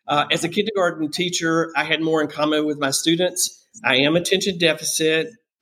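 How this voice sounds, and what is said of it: American Southern accent. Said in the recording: “That's where the Southern accent is from.”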